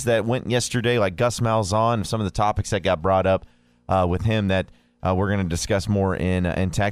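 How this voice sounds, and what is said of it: Tired, slightly hoarse voice. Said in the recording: “if you could probably tell from my voice, ... I was very tired, very exhausted ... I'm trying to fight off a few of the frog in my throat”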